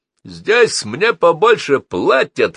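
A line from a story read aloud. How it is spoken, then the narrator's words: Boastful shout. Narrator (Russian): хвастливо крикнул Фрэнки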